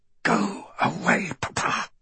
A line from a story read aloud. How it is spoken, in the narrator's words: Celia says through clenched teeth, trying to control herself